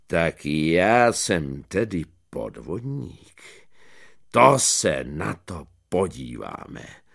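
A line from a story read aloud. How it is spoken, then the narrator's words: Deep voice. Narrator (Czech): povídá hlubokým hlasem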